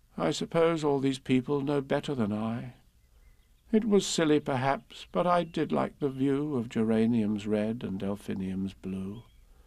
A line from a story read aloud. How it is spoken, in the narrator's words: The dormouse, said with a sigh